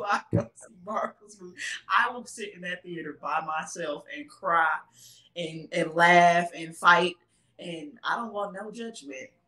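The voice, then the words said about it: Texas accent. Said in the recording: “Excuse my Texas accent. I just heard it myself.”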